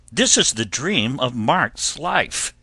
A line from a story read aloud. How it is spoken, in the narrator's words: spluttered